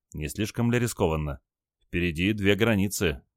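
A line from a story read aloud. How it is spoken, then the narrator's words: Quiet question. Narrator (Russian): тихо спросил Олег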